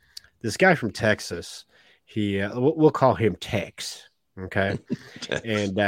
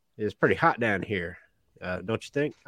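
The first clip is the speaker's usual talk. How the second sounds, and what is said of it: Put-on Southern accent. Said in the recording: “the devil has a southern accent”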